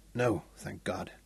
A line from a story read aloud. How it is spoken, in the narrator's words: Mungo said